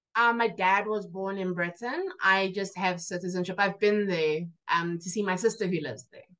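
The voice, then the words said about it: South African accent with British tones. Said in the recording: “the accent, the African accent, but I can also hear another one ... the British side of my family”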